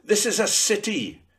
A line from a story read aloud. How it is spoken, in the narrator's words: suddenly declared loudly